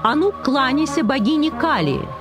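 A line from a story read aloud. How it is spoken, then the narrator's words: Shouted. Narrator (Russian): крикнул он Рамачандре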